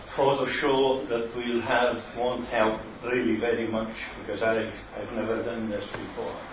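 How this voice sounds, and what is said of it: Strong dialect, hard to understand. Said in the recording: “My dialect will make it very difficult for you to understand me.”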